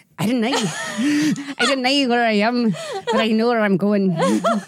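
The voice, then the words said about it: Attempted Scottish accent, sounding Irish. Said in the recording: “I don't know if I can do a Scottish accent ... an Irish accent for sure”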